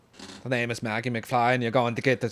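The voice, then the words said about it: Poor put-on Irish accent. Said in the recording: “It's a terrible Irish accent. ... It's more Scottish.”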